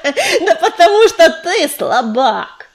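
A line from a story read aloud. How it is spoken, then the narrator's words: Laughing loudly. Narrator (Russian): расхохотался коршун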